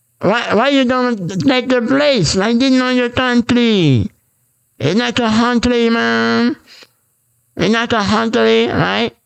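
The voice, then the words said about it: Put-on Asian accent. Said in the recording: “Okay, Asian accent, right?”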